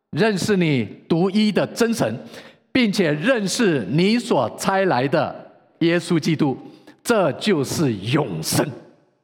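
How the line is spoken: Loud reading aloud. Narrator (Chinese): 我们大声的读

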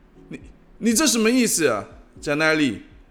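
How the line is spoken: Shouting back. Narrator (Chinese): 他大声吼了回去

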